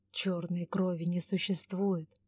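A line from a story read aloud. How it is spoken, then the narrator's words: Thoughtful mutter. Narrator (Russian): задумчиво пробормотал Ивар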